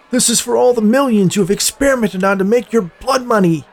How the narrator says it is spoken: shouted at Forrest

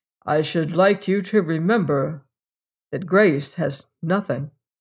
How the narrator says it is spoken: said Colthurst gravely

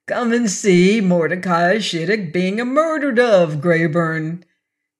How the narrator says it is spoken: said, chuckling as if it was all a joke

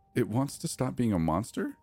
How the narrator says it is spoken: She asks, her voice thick with disbelief

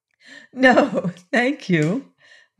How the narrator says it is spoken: laughed Polychrome

